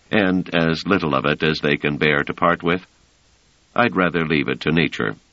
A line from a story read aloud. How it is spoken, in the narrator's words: said Treviz dryly